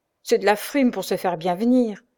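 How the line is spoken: Sneering. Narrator (French): ricana l'autre

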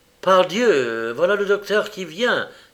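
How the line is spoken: Exclamation. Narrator (French): s'écria Holmes

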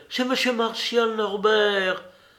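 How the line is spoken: Exclaimed. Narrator (French): s'écria-t-elle

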